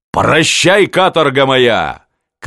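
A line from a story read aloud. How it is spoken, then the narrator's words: Shouting from a distance. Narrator (Russian): кричал губернатор из санок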